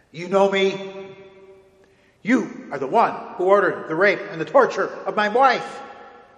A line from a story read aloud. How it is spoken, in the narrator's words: the rebel general shrieked